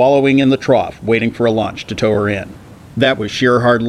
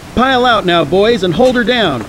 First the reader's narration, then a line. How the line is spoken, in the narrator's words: cried Tommy